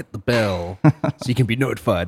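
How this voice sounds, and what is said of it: Imitates a YouTuber's voice. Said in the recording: “my impersonation of my best YouTuber”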